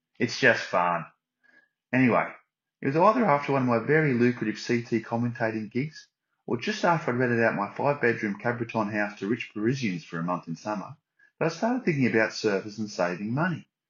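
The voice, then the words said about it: Put-on Australian accent. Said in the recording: “I speak in an Aussie accent. It's not racist when you do an Aussie accent.”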